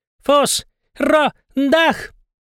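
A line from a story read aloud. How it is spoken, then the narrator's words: Bellowing penguin. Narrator (Russian): заорал пингвин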